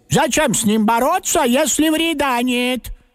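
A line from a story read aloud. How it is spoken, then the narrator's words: Loud agreement, grandmother. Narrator (Russian): Согласилась бабушка, тоже громко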